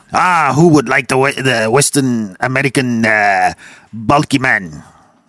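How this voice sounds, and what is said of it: Put-on Arabian-sounding accent. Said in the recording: “Not sure about the accent ... The accent. Jesus. ... He's an Arabian slave owner.”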